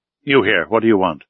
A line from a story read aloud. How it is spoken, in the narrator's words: said roughly